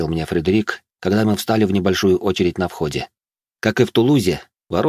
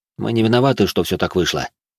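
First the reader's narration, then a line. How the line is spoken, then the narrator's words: Calm. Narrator (Russian): спокойно произнес я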